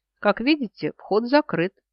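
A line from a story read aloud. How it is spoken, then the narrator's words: Mocking snort. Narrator (Russian): насмешливо фыркает Хавис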